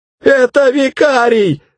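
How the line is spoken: Yelling. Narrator (Russian): заорал

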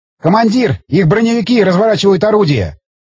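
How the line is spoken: Shouted. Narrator (Russian): крикнул стрелок главного калибра

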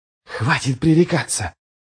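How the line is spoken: Hissed. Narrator (Russian): прошипел Ярви

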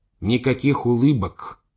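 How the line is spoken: Angry. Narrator (Russian): сердито сказал Симыч

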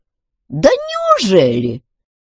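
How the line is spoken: Thunder god squeaking. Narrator (Russian): пропищал громовержец

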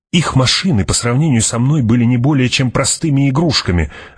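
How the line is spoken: Snapping retort. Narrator (Russian): огрызнулся Питер

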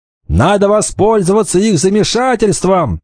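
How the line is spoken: Shouting. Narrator (Russian): закричал Кикаха

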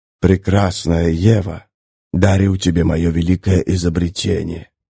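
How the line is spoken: Sinister whisper. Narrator (Russian): прошептала сатанинская фигура

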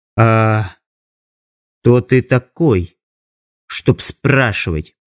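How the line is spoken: Quiet, through clenched teeth. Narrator (Russian): процедила она тихо

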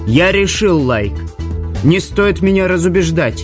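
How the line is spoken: Triumphant laughter. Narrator (Russian): Ямаец торжествующе захохотал

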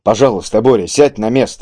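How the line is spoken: Calm repetition. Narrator (Russian): уже спокойно повторил Кийск

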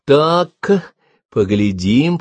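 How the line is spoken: Drawn-out. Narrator (Russian): протянула она

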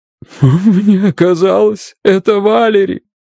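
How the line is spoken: Whimpering. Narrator (Russian): скулила

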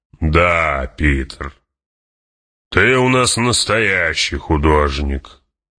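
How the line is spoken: Growling. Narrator (Russian): прорычал барон

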